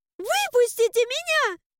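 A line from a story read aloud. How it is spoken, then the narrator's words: Shriek. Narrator (Russian): Взвизгнула я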